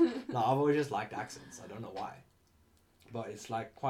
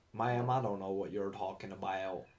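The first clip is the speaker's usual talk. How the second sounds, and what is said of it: Put-on Alabama Southern accent. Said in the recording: “I'm speaking my Bama accent from now on ... your Alabama accent”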